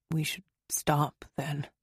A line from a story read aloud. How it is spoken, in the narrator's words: Derek murmured